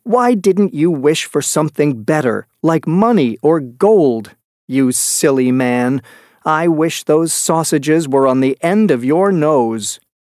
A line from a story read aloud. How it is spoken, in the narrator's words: his wife shouted angrily